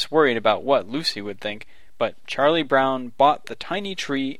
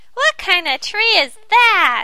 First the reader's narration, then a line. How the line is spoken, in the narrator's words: shrieked